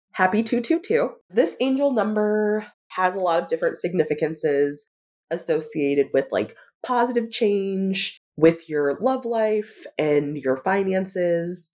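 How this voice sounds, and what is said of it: Voice sounds rough and unwell. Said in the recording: “My voice sounds absolutely terrible”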